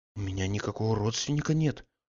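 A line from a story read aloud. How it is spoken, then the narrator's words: Timid, stunned reply. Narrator (Russian): робко отвечал оторопевший Алексеев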